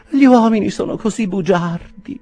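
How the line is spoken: Weak sigh. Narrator (Italian): sospirò debolmente

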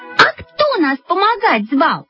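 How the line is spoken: Shouted in unison. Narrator (Russian): закричали мы в один голос

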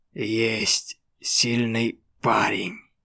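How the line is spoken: Satisfied voice. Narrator (Russian): Он произнес удовлетворенным голосом

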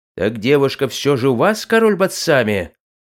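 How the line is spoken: Ruler roaring. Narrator (Russian): взревел желтокожий правитель

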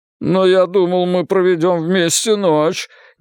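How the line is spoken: Involuntary moan. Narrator (Russian): невольно простонал я

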